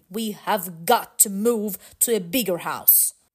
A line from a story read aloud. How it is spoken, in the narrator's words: His dad said firmly